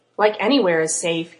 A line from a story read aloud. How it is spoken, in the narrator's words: Kat scoffed